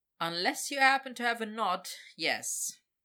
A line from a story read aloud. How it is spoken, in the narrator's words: Victor said dryly